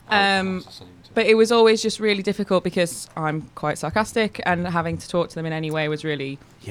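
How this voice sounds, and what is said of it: Northern English accent from Yorkshire. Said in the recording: “I love your accent ... I'm from near York”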